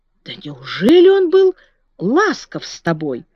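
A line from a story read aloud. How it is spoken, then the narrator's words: Exclaimed. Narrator (Russian): воскликнула Марта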